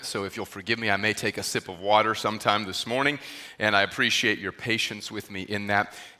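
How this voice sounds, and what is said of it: Recovering, subdued voice. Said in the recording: “my voice is returning ... my voice is still not 100% ... I'm going to try to keep it a little subdued in terms of the tone of my voice”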